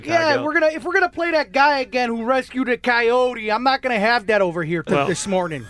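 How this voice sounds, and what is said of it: Put-on heavy Chicago accent. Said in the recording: “He has a very heavy Chicago accent ... Johnny ... Chicago, you want to?”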